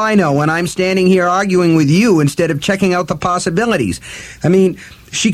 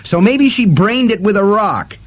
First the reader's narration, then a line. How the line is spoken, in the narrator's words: Eddie shouted